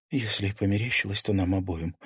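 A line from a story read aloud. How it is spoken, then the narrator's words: Whisper. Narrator (Russian): прошептала Карина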